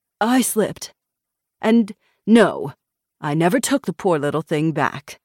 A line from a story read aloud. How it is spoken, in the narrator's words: James said crossly